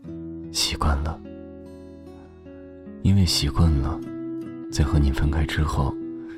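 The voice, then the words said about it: Soft, aggrieved quiet voice. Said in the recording (Chinese): “小声而又委屈地说”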